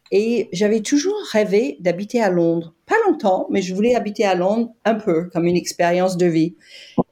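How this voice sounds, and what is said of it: Slight foreign accent, not British. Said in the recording (French): “on détecte qu'il y a un petit accent, mais ce n'est pas un accent britannique”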